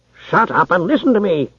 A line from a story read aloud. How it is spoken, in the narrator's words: snapped Darrow Longshoreman